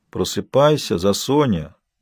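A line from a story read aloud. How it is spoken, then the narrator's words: Quiet, gentle. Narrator (Russian): сказал он негромко, не пытаясь, впрочем, действительно ее разбудить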